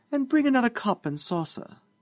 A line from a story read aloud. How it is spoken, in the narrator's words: said the deputy mayor sweetly